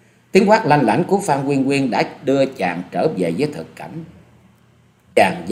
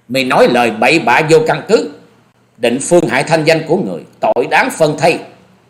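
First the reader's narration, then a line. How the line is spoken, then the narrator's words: Loud shout. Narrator (Vietnamese): Nàng cất tiếng quát to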